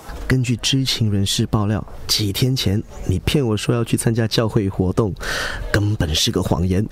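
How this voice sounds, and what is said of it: Speaking quietly, hushed voice. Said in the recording (Chinese): “那我小声说了”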